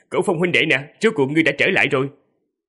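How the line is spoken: Loud laughing from afar. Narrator (Vietnamese): Hạ Nhất Minh từ rất xa đã cười lớn rồi nói

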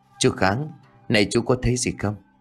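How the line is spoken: Trembling question. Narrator (Vietnamese): gã liền run rẩy hỏi

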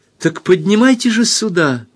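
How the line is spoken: Bright joyful interruption. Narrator (Russian): перебила она светло и радостно

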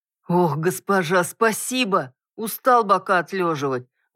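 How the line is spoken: Relieved exhale. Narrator (Russian): выдохнул Дуг

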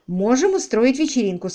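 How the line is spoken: Plain. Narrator (Russian): сказала Селия

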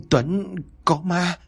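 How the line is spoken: Stammering. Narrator (Vietnamese): miệng vẫn còn lắp bắp

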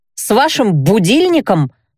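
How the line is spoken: Snapping. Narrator (Russian): огрызнулась я

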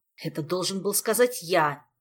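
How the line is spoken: Irritated interruption. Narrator (Russian): раздраженно перебил его Кантер

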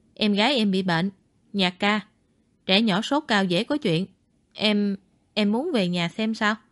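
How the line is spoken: Lowered voice. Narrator (Vietnamese): Ngụy Khiêm hạ giọng nói

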